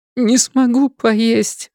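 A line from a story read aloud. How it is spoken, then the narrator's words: Sobbing. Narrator (Russian): всхлипнула она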